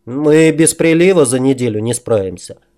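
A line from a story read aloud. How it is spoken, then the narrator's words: Sigh. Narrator (Russian): вздохнул Туча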